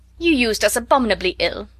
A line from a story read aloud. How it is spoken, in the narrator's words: answered Mrs